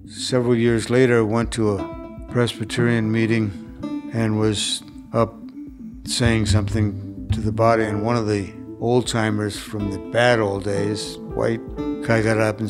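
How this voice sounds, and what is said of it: Accent not native to Mississippi. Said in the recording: “Clearly, my accent is not native Mississippians.”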